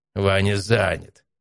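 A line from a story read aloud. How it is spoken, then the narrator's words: Snort. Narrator (Russian): хмыкнул Матвей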